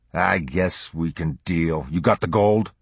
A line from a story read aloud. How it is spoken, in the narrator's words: Reluctantly, he growled